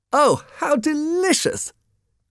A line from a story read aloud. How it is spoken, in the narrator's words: cried one of the women